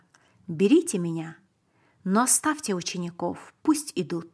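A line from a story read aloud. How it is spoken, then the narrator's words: Calm and loud. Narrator (Russian): Иисус сказал спокойно и громко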